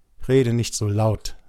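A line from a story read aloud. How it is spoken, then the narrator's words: Plain. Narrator (German): sagte ich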